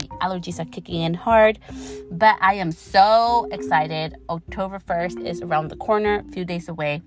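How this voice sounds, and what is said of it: Slightly raspy voice. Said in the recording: “My voice may sound a little raspy.”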